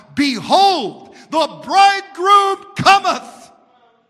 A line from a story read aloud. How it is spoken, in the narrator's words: There would come forth a shout